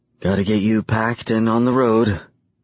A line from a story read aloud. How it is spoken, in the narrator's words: she says with a rasp in her voice